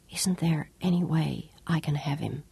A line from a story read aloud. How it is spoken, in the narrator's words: asked in a whisper